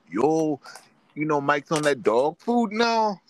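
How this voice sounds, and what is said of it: Geechee accent. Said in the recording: “in a Geechee accent”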